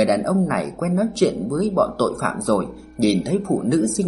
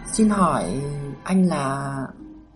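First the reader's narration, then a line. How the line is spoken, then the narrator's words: Gentle question. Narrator (Vietnamese): hỏi nhẹ nhàng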